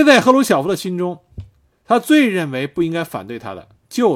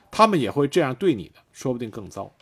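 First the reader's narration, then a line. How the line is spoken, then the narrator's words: Low voice. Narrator (Chinese): 赫鲁晓夫低声跟谢列平说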